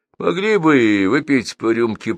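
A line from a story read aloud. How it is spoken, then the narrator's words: Grumble. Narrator (Russian): проворчал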